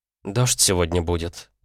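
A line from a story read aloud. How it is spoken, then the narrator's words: Thoughtful. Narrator (Russian): задумчиво произнесла Оливия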